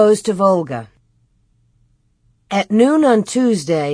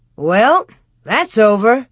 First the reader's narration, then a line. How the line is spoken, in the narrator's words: Pa said cheerfully